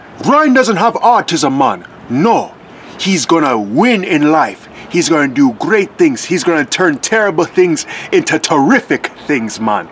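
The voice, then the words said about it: Put-on Jamaican accent. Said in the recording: “I don't want to do a Jamaican accent, but you know what? Just for grandma's sake”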